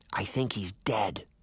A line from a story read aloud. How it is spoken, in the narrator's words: Daphne whispered after staring at him for some time